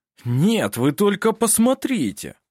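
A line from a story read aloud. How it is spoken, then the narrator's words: Delighted exclamation. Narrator (Russian): Восхищенно воскликнул он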